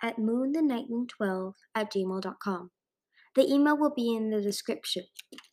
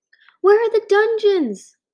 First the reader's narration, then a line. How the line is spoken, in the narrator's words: Glory shouted